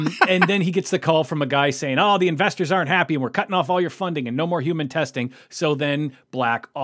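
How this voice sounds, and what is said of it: Usual voice. Nothing is said of it.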